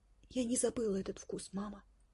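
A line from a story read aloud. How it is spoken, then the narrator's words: Whispered. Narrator (Russian): прошептала Горошенко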